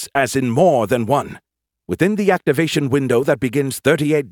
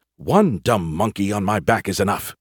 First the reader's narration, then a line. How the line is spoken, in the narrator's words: he muttered